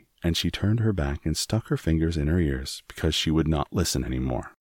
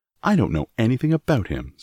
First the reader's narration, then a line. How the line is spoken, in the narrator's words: snapped Mary